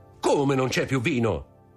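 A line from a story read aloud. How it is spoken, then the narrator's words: Exclaimed, turning pale. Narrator (Italian): esclamò Dantès impallidendo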